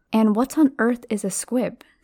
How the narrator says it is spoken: said Harry

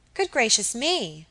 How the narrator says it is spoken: she cried suddenly

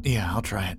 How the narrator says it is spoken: I muttered

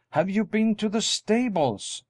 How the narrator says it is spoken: she exclaimed in dismay

